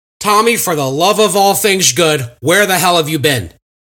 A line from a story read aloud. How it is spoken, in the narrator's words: Willie exclaimed